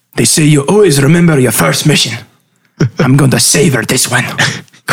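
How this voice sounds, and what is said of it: Inconsistent, wandering character accent. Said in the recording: “my accent's going all over the place”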